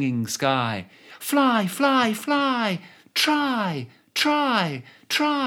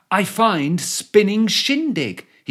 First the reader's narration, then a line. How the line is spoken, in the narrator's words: he cried